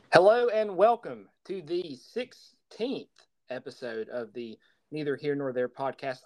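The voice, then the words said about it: Distinctive regional accent. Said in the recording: “I, of course, am not Stephen Kilby. I'm ... What gave it away? Well, the accent, of course.”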